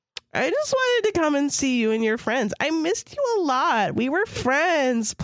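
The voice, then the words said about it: Ditzy bimbo character voice. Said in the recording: “This is the bimbo or whatever. So I'm doing this voice.”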